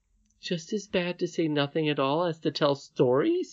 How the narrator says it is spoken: exclaimed the princess

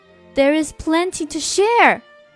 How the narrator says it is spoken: Katja cried

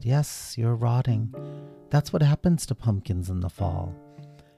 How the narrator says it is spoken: nodded sadly and said

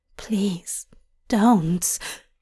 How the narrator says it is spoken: Hop whispers

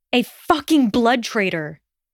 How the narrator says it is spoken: shouted

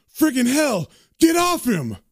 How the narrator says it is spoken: Dez yells out

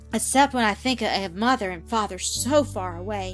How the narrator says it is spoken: she added with a sigh, the tears starting to her eyes

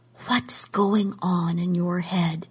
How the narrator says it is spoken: she whispered

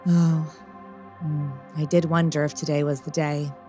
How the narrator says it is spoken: Angela sighed

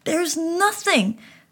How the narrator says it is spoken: I shouted

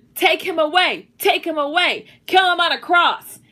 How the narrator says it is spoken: they shouted

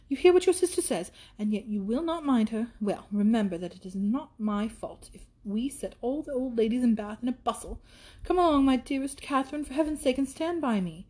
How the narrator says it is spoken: cried Isabella

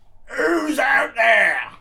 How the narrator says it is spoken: A craggy voice yelled out

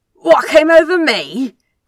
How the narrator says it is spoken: Crowley gasped, struggling for words

